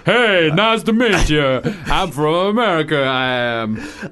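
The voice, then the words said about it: Bad put-on American accent. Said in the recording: “Genuinely embarrassed by my American accent ... Absolutely not”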